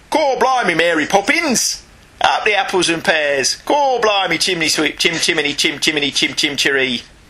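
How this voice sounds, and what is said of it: Deliberately bad put-on Cockney accent. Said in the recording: “take the mick out of Dick Van Dyke's British accent in that movie ... I'm actually British and can't do a Cockney accent”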